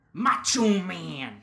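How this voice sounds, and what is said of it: Poor impression of a wrestler. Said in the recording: “that was not a good impression. He's better.”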